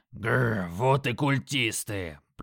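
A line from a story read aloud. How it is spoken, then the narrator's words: Growled. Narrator (Russian): Прорычал Крак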